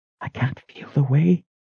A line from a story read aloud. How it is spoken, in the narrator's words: whispered